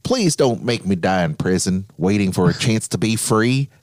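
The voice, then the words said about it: Imitates another person's voice. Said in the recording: “you're channeling him there. That was a good impression. ... The worst impression ever. Worst impression.”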